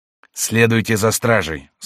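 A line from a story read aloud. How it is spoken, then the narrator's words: Hoarse voice. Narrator (Russian): сказал хрипловатый голос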